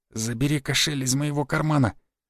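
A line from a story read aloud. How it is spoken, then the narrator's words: Whispering. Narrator (Russian): я прошептал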